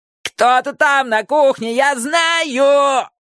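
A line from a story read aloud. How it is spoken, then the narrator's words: Howling wail. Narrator (Russian): Джонни взвыл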